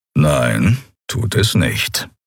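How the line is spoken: Calm reply. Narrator (German): erwiderte Keru ruhig

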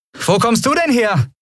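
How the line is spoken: Call. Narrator (German): rief Endriel

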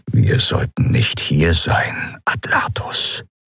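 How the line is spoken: Whispered. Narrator (German): flüsterte Joa

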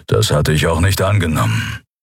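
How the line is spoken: Growl. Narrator (German): knurrte der Skria

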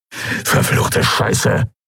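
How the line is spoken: Hissing. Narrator (German): zischte Urdrak

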